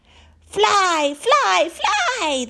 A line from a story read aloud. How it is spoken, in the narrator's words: they shouted at me